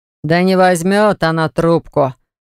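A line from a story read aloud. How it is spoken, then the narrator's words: Snorted. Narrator (Russian): хмыкнул Баграт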